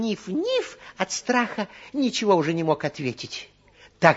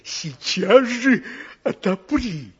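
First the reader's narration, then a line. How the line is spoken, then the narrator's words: Growling wolf. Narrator (Russian): прорычал опять волк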